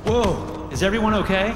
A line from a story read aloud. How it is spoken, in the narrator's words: Brett shouted